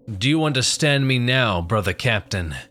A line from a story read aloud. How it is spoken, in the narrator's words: came the booming voice from the creature